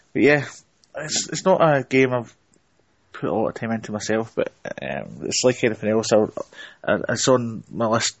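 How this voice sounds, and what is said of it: Scottish accent. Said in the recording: “doing my part in Scottish, because that's the only accent I can do. Because so. I'm Scottish.”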